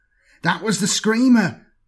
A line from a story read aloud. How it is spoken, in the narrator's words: replied nervously